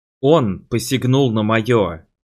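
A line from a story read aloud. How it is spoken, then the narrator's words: Close growling. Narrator (Russian): прорычал Кристиана в мои губы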